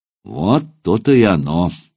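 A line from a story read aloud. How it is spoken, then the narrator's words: Sighed. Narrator (Russian): вздохнул Сергей Иванович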